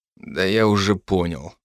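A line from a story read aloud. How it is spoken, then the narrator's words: Grim, forced-out words. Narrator (Russian): выдавил я мрачно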